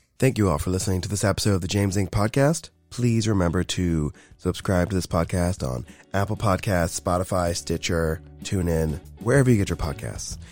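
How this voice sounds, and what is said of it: Voice much deeper than normal. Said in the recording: “why my voice is so much deeper than normal, because I'm getting over a cold”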